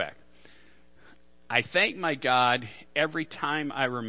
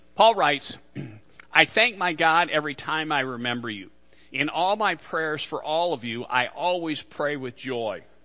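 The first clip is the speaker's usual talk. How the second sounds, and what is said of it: Reading aloud fast. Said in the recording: “I read that fast.”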